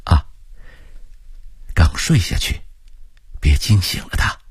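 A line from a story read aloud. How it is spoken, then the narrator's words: Whispered. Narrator (Chinese): 冯永春悄声地说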